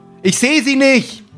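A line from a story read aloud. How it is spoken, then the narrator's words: Calling back. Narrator (German): ruft Gerd zurück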